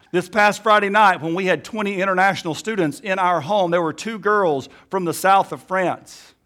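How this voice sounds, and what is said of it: Alabama Southern US accent. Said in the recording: “me right now with my Alabama accent”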